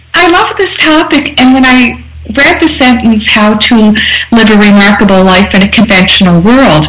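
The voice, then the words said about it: Nova Scotia accent with lilt. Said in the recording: “the lovely dulcet tones of your Nova Scotia voice... my authentic, natural lilt... Your remarkable lilt.”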